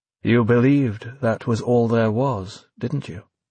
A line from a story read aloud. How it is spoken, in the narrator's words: He said more gently now